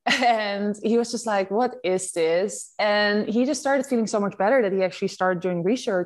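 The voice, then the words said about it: Dutch accent. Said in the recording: “I'm Dutch, as you like, you can hear from my accent.”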